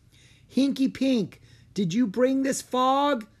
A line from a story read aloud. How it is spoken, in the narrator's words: called out